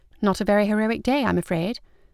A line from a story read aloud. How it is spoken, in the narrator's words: Margaret murmured